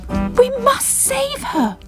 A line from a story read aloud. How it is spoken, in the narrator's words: cried Bubble